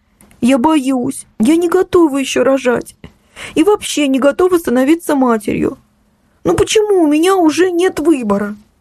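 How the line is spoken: Sobbing, holding back tears. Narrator (Russian): Ксюша всхлипнула, пытаясь не заплакать

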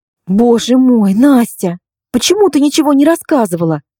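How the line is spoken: Exclamation. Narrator (Russian): воскликнула я

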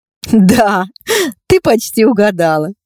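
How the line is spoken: Laughing. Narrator (Russian): рассмеялась Настя

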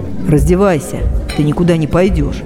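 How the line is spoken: Calm. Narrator (Russian): спокойно сказал он

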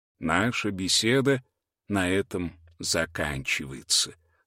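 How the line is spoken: Deep voice. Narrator (Russian): сказал учитель глубоким голосом

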